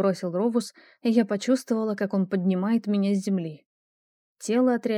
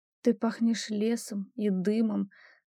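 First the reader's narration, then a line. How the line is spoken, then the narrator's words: Muttered. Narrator (Russian): пробормотала я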